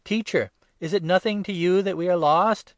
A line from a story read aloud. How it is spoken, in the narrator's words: the disciples cried